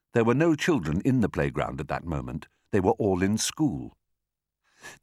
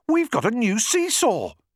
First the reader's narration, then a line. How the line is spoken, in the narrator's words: they cried